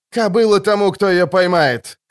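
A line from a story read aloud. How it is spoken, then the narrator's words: Shouting. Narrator (Russian): крикнул Скеллен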